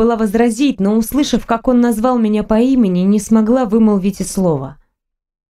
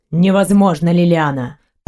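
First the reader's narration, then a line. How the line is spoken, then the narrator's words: Low, slightly hoarse voice. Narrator (Russian): от его низкого, чуть хриплого голоса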